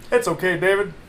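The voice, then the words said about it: Eddie Murphy impression. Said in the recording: “your Eddie Murphy impression, spot on”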